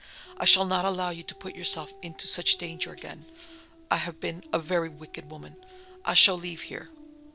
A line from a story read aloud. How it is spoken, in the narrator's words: said Lady Morven brokenly